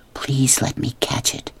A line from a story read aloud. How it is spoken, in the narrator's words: she whispered